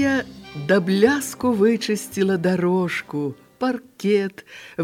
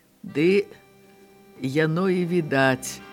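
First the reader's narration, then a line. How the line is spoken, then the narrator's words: Smiling. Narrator (Belarusian): усміхнуўся начальнік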